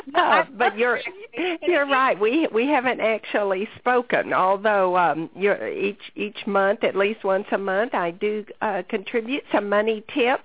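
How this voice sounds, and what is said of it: Noticeable regional accent. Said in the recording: “I thought you were going to comment on my accent. That's what most people do.”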